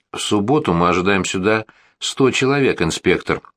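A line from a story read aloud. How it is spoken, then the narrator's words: Plain. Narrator (Russian): сказал Генри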